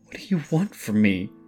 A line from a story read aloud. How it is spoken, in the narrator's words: continued to stammer while fighting back tears